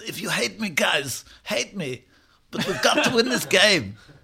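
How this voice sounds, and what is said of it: Poor Pep Guardiola impression. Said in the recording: “That's not a good impression of Pep Guardiola at all.”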